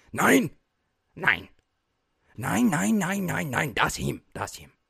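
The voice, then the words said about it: Put-on German accent, somewhat off. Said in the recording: “let me find my German accent ... I feel like it's still a little bit Asian”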